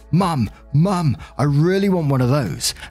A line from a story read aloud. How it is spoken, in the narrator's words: The little boy shouts excitedly